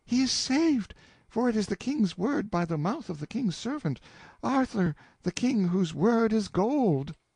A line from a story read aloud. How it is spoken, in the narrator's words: the woman flung herself at me in a most surprising explosion of joy, and cried out